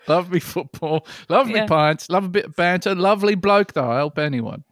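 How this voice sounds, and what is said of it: Put-on English accent. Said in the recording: “Sorry about the accent thing again.”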